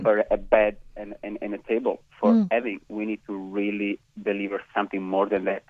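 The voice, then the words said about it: Italian accent. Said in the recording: “your gorgeous Italian accent”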